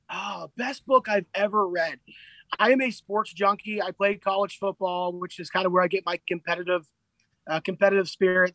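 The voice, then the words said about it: Hoarse, strained voice. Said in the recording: “I'm getting losing my voice here.”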